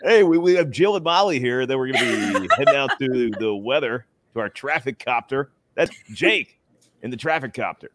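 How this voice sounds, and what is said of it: Radio DJ announcer voice. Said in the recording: “trapped in permanent DJ voice, because your voice changes just a little bit when you're reading news or the weather or you're doing sports ... stuck in this mode”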